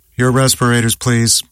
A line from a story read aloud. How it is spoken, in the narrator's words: directed in a monotone